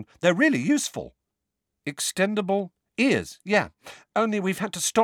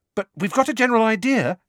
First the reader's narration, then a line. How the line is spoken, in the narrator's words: she added hastily, seeing the look on Harry's face